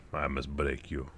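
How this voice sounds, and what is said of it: Bad Russian accent impression. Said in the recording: “That was a terrible Dolph Lundgren... his bad Russian accent.”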